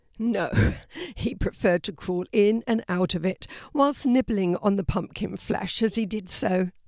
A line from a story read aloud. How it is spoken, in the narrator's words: laughed Wilf